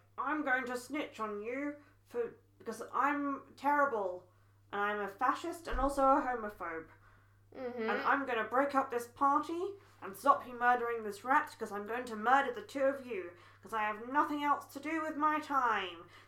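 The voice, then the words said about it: Imitates Snape, puppet-like voice. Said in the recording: “my Snape impression ... You sound like one of the Potter Puppet pals.”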